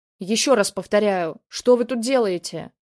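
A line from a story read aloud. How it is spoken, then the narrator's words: Old man roaring. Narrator (Russian): взревел старик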